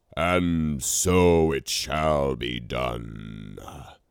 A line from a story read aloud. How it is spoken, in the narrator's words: bellowed Romular